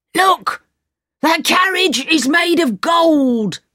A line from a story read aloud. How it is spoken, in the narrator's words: shouted the leader